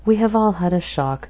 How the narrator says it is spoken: Natalie said in her sweetly modulated tones

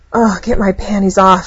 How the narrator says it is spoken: gasped

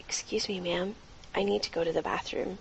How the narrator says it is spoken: Coughing gently towards the elderly woman, she looked at her and softly said

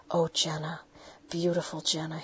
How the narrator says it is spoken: he spoke softly

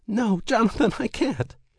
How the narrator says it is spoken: cried out

